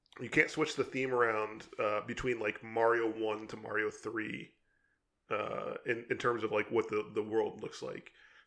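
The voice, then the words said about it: Strained, failing voice. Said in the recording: “I'm losing my voice here ... You're dying over there. Take a drink of water, man. ... Man, really losing it here.”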